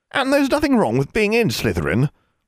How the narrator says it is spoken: added Andromeda a little sharply

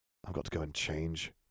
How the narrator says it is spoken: sighed

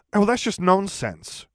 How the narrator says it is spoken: snapped Harry irritably

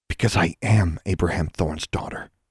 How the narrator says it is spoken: she whispered

